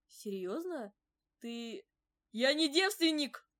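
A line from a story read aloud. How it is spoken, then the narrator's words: Barking snap. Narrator (Russian): Рявкнул на меня король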